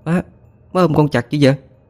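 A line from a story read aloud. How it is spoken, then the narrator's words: Irritable snapping. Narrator (Vietnamese): thái độ cáo gắt như thường ngày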